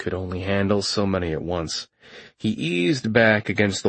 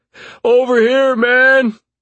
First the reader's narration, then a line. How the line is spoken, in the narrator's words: The wounded soldier called out